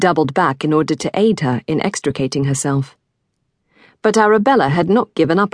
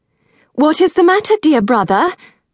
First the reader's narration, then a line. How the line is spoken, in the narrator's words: Arabella gasped